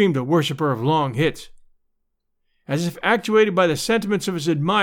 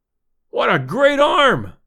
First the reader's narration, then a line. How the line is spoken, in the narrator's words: I exclaimed, deep in my throat